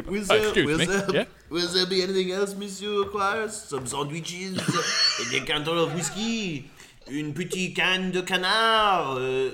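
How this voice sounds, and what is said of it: Put-on French accent. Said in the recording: “Let's just go with French ... Oh, the accent.”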